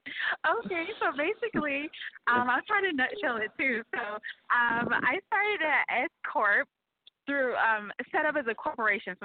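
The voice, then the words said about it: New Hampshire accent. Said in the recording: “we love that New Hampshire accent.”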